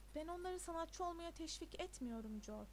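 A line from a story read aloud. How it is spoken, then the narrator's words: Plain. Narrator (Turkish): dedi Keating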